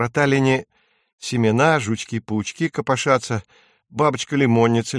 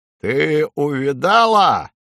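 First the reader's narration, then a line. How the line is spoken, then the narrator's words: Rook bellowing. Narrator (Russian): гаркнул грач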